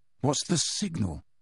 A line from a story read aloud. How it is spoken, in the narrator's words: muttered Harry